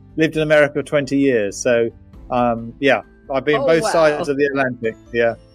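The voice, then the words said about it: British accent. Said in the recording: “accent you're from the UK”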